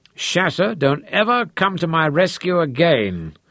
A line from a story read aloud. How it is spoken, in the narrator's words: David croaked